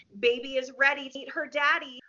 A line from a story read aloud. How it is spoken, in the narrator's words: a burst of excitement as Marissa exclaimed